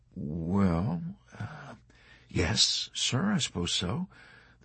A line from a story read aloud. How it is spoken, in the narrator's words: the chaplain answered hesitantly